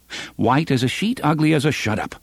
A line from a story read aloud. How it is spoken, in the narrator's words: Roland said curtly